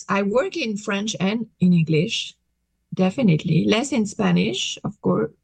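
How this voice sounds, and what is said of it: French accent speaking English. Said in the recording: “People hear I have an accent ... as soon as they hear I have an accent, they're going to switch in French ... coming from France”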